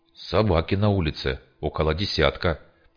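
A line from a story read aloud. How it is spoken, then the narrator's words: Whisper. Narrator (Russian): прошептал парень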